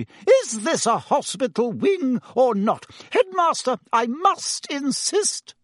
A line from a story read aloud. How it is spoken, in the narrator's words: said Madame Pomfrey hysterically